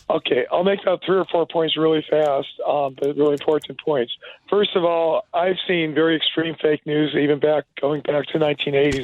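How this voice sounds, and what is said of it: Hoarse voice from a cold. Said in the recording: “I got a cold. I have a cold. My voice is hoarse,”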